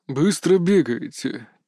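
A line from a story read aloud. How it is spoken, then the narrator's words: Heavy breathless exhale. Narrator (Russian): тяжело выдохнул Иван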